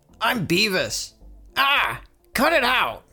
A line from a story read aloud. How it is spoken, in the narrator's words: Beavis yells